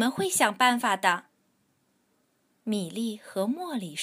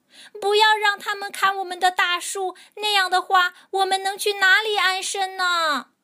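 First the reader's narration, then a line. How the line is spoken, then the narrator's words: Shouting. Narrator (Chinese): 小鸟们喊着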